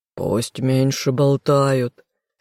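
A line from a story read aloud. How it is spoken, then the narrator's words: Hoarse mutter. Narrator (Russian): хрипло пробормотал любимый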